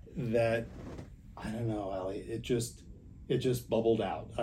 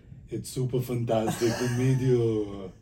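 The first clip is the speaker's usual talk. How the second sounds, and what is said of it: Imitates another person's voice. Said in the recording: “I do an impression of him.”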